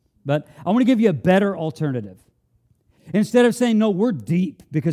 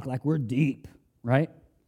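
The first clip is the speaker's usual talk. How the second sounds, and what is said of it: Mock deep voice. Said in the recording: “Even use my deep voice for that.”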